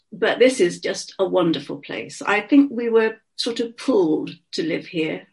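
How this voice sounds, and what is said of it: Slight Bristol accent. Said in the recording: “some people say, a distinctive Bristol bit in my accent.”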